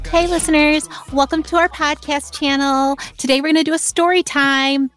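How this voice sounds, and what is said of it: YouTube story time host voice. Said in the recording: “my YouTube story time impression”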